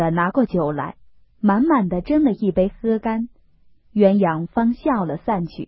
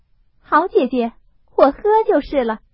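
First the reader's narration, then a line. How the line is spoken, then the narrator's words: Laughing. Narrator (Chinese): 凤姐儿笑道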